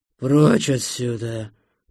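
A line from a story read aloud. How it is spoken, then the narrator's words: Growling. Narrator (Russian): прорычал он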